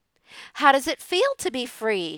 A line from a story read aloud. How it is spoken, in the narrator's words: she asked